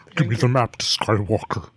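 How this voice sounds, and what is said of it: Kylo Ren character voice. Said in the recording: “my Kylo Ren impression”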